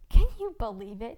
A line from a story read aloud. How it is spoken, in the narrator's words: He laughed